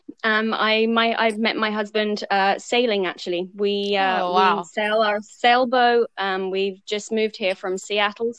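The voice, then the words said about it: English accent. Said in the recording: “you have an accent ... I'm originally from England”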